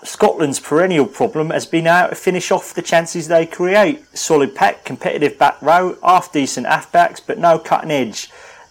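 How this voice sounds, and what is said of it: Exaggerated fake Cockney accent. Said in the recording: “Cockney? ... No, go for Dick Van Dyke, Cockney.”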